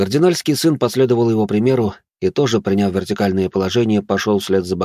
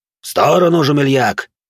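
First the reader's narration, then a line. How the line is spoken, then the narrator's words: Barking shout. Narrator (Russian): рявкнул на него Рошфор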